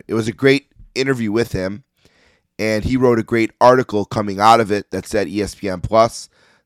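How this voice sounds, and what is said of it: Hoarse, strained voice. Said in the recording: “I'm losing my voice a little bit here tonight.”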